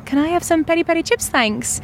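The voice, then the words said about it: Broad put-on Irish accent. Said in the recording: “I'm going to practice this accent. So I think I was Irish ... Like real, like broad.”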